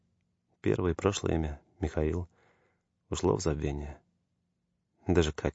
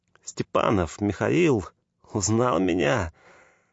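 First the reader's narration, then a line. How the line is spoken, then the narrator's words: Joyful exclamation. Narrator (Russian): С радостью воскликнул он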